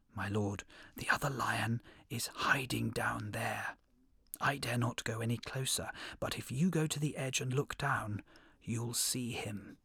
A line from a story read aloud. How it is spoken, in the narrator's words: The hare whispered